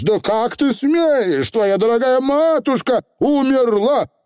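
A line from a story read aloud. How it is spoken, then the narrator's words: Shout. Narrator (Russian): крикнул Роланд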